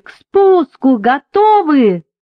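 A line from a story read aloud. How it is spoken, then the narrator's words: Two sailors shouting together. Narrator (Russian): оба матроса закричали хором, что есть мочи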